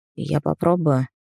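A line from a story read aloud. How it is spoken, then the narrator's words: Quiet. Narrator (Russian): тихо сказал он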